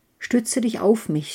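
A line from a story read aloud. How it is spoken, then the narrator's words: Plain. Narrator (German): sagte die Birke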